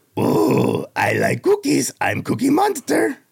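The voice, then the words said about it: Cookie Monster character voice. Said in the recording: “We got Cookie Monster.”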